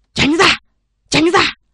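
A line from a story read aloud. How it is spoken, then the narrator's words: Loud shout. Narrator (Vietnamese): Một đội viên quát to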